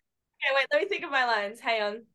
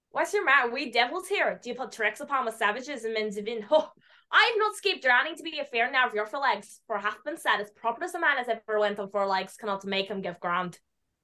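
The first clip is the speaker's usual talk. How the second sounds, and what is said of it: Put-on Irish accent. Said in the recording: “I have an Irish accent ... Can I hear your Irish accent?”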